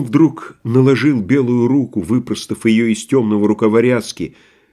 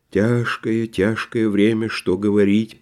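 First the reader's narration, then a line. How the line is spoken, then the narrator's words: Muttered. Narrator (Russian): пробормотал он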